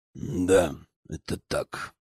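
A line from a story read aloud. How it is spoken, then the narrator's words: Steely voice. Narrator (Russian): стальным голосом подтвердил Борис Борисович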